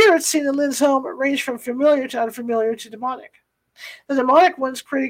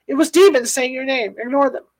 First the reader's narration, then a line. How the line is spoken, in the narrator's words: Phyllis finally blurted out